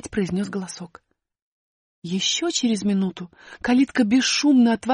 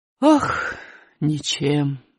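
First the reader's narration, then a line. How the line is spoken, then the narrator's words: Sighing. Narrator (Russian): вздохнул мистер Леон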